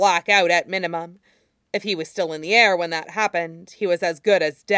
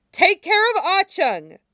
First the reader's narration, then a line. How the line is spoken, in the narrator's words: she shouted as they struggled against Zijian